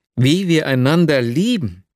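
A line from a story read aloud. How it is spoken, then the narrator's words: Exclaimed. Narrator (German): rief ich aus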